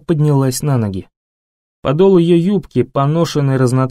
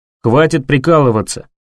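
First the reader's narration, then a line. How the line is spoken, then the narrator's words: Barking. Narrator (Russian): рявкнул Том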